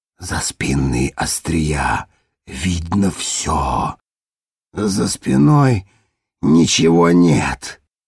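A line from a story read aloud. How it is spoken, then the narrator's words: Hoarse rasp. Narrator (Russian): прохрипел Ребус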